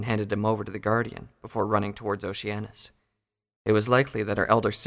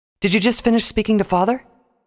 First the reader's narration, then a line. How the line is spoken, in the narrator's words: asked excitedly